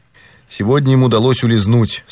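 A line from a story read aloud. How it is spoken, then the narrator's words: Calm. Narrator (Russian): спокойно ответил Пинкертон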